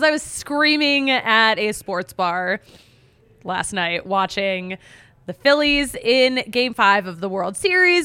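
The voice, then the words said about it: Worn, strained voice fading. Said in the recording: “I really tore it up. I can't believe I have a voice. I can already kind of feel it going away”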